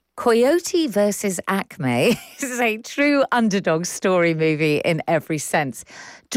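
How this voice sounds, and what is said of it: English accent. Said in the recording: “Shall I carry on doing it in my English accent?”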